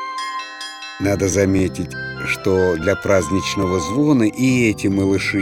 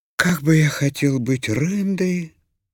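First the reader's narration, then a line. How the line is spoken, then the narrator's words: Sad sigh. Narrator (Russian): вздыхал грустно Бим-Бим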